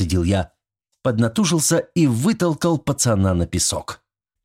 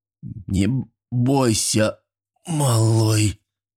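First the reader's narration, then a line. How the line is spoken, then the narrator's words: Hoarse wheeze. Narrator (Russian): прохрипел я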